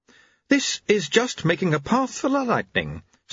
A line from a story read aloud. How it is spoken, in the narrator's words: said Jeremy happily